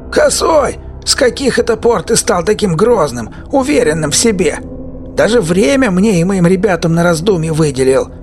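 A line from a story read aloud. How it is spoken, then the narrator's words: Sudden loud shout. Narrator (Russian): неожиданно громко крикнул бывший десятник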